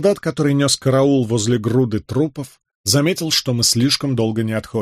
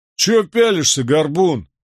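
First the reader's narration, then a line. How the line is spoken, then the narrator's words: Grumbling. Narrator (Russian): проворчал он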